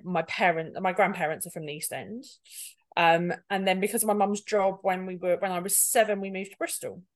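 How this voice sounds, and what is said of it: East End London accent. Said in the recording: “I definitely don't sound like it, I was born in Edinburgh, and then ended up in the East End of London when I was very little, hence the accent.”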